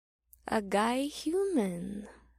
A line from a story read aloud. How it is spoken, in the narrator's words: the woman purred